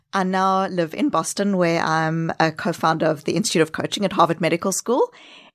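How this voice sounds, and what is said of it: Mixed South African, New Zealand, Australian accent. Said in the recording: “your accent is not Brooklyn. ... A very unique combination of South Africa, New Zealand, Australia. ... And I also have 2 years of backpacking accent thrown in there.”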